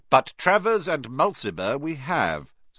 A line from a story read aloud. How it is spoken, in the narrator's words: said Mr